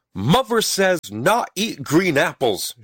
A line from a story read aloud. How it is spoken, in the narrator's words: shouted Stubby